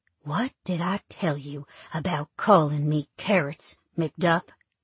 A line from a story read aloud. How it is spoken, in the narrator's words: say quietly